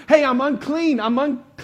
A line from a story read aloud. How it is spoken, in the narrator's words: This leper who's supposed to be shouting